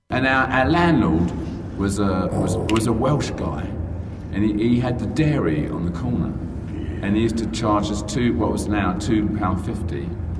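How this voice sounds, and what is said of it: British accent. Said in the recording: “When you have a British accent, it doesn't sound like a crime.”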